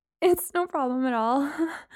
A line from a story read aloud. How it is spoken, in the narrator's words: I said, my attempt at a laugh sounding more like a whimper